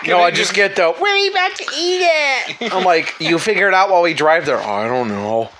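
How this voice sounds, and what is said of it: Whiny voice. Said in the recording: “whiny voice”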